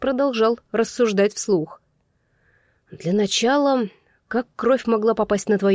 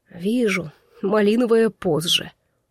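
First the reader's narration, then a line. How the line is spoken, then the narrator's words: Hopeless sigh. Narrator (Russian): вздохнула без надежды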